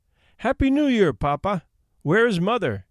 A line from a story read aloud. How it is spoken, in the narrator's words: we cried